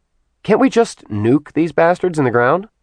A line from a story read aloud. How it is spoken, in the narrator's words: Sin scoffed